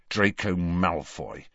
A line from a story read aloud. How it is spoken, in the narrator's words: said Harry bitterly